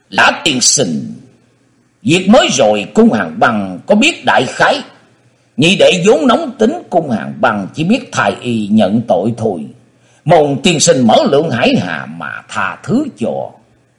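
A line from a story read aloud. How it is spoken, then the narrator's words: Prompt, immediate speech. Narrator (Vietnamese): cung Hàng Băng không chờ Lã Nghị khai khẩu, y nói ngay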